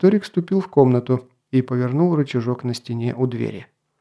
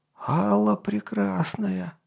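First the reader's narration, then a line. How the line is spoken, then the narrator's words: Breathless old man. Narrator (Russian): выдохнул старый архимаг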